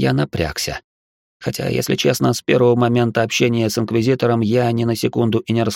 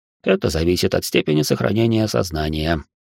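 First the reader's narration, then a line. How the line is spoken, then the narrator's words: Calm. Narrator (Russian): спокойно ответил священник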